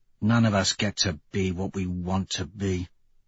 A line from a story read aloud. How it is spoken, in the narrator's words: Severo mutters